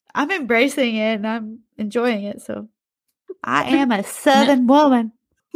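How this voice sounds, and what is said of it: Southern US accent. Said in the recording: “I don't know why I'm talking with such a southern accent today.”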